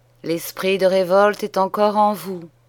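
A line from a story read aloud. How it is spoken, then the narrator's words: Sighing cleric. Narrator (French): soupira l'ecclésiastique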